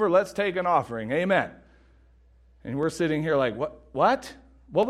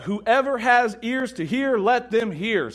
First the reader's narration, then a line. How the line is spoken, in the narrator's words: he called out